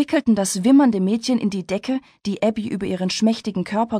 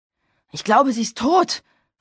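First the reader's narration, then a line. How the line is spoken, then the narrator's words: Panting. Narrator (German): keuchte Travis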